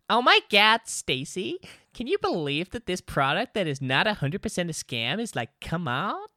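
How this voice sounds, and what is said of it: Put-on Valley Girl accent. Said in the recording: “I was trying to do Valley Girl ... Oh, that's really good. ... That's actually quite impressive. ... I'm quite good with a Valley Girl accent”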